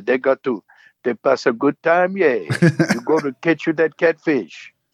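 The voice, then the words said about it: Put-on Cajun accent. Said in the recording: “nail the accent because it's not a Southern accent. ... them Cajun”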